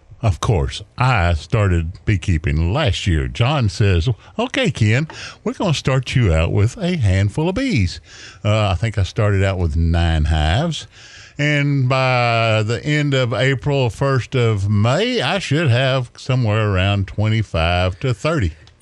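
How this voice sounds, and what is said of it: Smooth radio announcer voice. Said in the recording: “I'm talking to you in my FM voice now”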